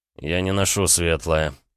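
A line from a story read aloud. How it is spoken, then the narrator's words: Through gritted teeth. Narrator (Russian): процедил Рома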